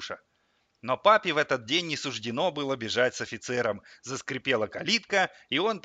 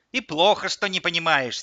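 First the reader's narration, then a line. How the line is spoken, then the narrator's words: Angry old woman. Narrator (Russian): сердито сказала бабушка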